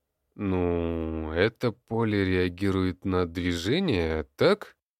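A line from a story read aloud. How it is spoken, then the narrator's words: Uncertain man. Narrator (Russian): Неуверенно произнес мужчина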